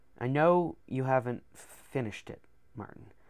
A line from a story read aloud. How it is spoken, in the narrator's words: he said in his deep, sad voice